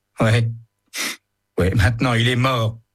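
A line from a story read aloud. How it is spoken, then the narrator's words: Whimpering. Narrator (French): pleurniche Joe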